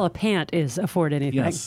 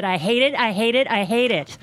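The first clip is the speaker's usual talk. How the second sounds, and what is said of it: Imitates another person's voice. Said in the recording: “that was pretty good impression there, too. It just gave me chills.”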